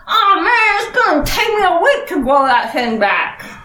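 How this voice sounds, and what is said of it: Character voice, slight southern accent. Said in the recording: “He suddenly developed a slightly southern accent?”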